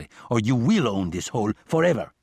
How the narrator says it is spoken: he said harshly

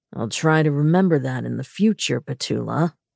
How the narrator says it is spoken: he said dryly

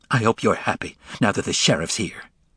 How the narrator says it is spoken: She spat out the words

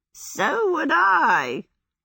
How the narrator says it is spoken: cackled Calcifer

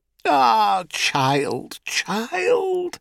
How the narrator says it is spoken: said Calanthe with a moan

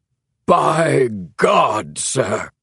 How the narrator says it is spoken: boomed King

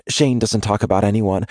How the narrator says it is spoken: Avery says quickly, with a conspiratorial smile

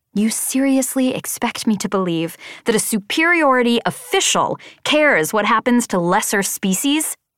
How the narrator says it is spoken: I spat the words, perhaps too fervently

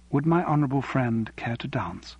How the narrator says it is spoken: she said quietly

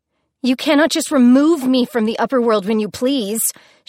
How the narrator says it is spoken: she shouted at him

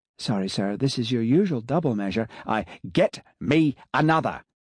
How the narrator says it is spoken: he snapped

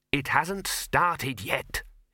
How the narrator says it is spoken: hissed the dean

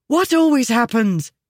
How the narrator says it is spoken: she asked urgently

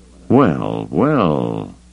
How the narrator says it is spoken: Lando murmured

